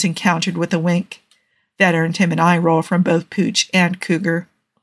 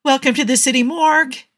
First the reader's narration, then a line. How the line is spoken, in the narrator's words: said cheerfully